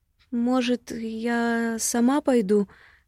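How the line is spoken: Timid question. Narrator (Russian): спрашиваю робко

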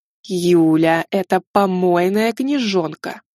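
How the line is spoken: Through clenched teeth. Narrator (Russian): процедила завуч

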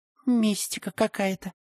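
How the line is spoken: Whispered. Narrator (Russian): прошептала Валя

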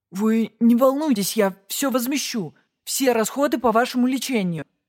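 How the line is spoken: Babbling bald man. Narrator (Russian): залепетал лысый

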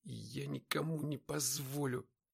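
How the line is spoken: Whispering again. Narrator (Russian): вновь прошептал

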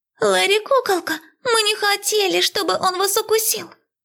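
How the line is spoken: Quiet squeak from behind. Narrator (Russian): Пискнул кто-то тихо из-за спин учеников

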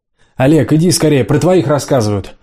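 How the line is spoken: Shouting from another room. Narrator (Russian): прокричала из кухни в комнату Лиза

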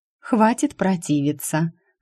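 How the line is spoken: Deceptively gentle, smiling. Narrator (Russian): Обманчиво ласково улыбнулась мама

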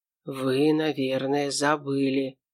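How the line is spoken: Near whisper. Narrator (Russian): Эйнар уже почти шептал

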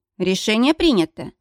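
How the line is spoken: Cold, clipped. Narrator (Russian): холодно отчеканила

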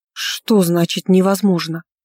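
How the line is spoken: Breathless exhale. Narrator (Russian): выдохнула

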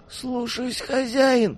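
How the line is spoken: Moaning. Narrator (Russian): простонал он

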